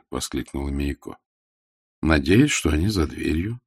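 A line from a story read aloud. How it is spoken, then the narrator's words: Calm reply. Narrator (Russian): спокойно ответила Веда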